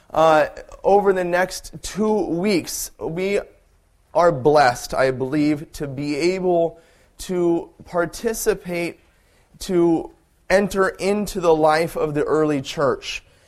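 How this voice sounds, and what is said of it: Scratchy, sore-throated voice. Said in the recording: “I woke up with a horrible sore throat this morning ... my voice is a little on the scratchy side”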